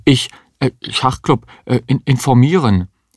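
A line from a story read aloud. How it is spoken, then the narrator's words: Stammering. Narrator (German): stammelte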